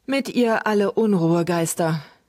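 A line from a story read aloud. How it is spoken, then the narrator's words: Hesitant, uneasy repetition. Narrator (German): wiederholten Luke und Trug, etwas zögernd, denn der Spuk dieser Kerlchen war ihnen nicht besonders geheuer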